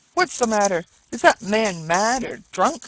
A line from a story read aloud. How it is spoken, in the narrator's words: exclaimed several voices